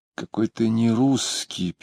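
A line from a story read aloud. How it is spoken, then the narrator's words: Sad. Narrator (Russian): печально говорила она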